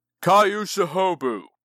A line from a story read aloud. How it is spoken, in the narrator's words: He bellowed, deep voice ringing with the power that led warriors to victory and death